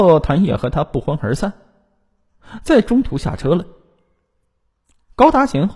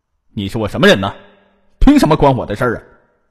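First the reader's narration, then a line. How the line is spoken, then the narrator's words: Loud, stubborn. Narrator (Chinese): 有些偏执的高达贤，大声的对他说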